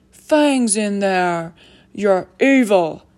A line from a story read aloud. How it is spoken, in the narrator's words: Hagrid bellowed